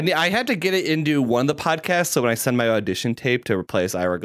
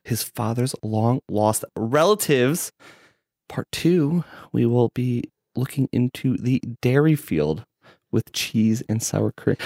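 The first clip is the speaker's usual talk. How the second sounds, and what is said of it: Public radio host impression. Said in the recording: “That was a really good impression of This American Life, though.”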